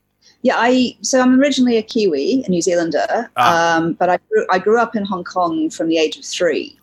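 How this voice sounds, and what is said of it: Mixed New Zealand accent. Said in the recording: “My accent is kind of a mix-up mm-hmm. of much everything.”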